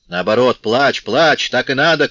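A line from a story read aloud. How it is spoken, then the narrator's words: Shouted. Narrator (Russian): крикнул отец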